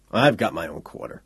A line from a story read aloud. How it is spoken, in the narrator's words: Tinbane said irritably